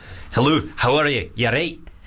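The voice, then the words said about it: Put-on Scottish accent. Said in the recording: “Okay, Scottish. ... It's not bad, right? That was okay.”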